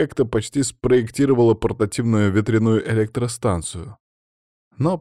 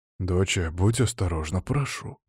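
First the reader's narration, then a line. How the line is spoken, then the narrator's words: Whisper. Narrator (Russian): прошептал Матвей Романович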